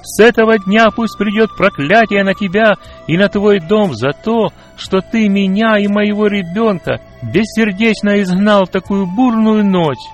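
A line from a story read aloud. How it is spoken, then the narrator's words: Wild scream. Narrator (Russian): она дико закричала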